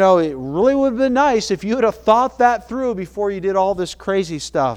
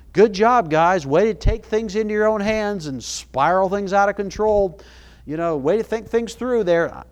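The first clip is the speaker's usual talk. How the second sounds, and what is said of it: Sarcastic tone. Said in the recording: “I'm being sarcastic”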